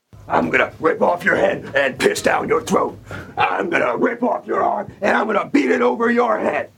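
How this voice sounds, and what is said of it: Impression of wrestler Rhino. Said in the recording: “do a Rhino impression”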